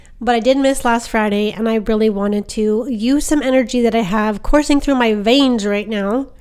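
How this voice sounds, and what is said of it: Stuffy, congested voice. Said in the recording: “I have been extremely sick with the vid ... excuse my voice, it's still a little bit stuffy”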